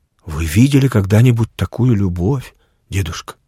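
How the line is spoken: Quiet question. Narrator (Russian): тихо спросила Вера

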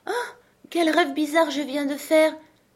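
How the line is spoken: Exclaiming. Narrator (French): s'exclama Alice

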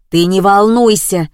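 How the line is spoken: Another voice shouting. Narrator (Russian): закричал другой голос

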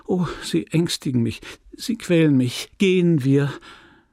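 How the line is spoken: Stammering. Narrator (German): stammelte

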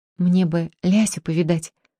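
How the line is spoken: Timid. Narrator (Russian): робко сказал Артемка

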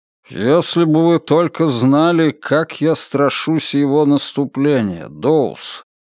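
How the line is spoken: Gloomy. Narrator (Russian): мрачно промолвил Мальоре

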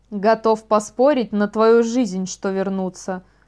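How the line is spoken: Grumbled. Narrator (Russian): проворчал Вайл

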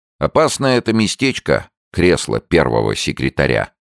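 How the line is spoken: Plain. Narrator (Russian): сказал Виктор

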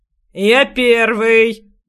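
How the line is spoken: Rough bark. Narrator (Russian): грубо рявкнул другой

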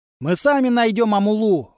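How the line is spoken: Fighter shouting. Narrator (Russian): выкрикнул кто-то из боевиков

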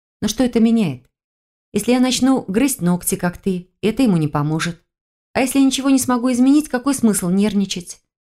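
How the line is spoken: Completely calm, matter-of-fact. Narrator (Russian): говорила совершенно спокойно, как будто речь шла о погоде или курсе валют

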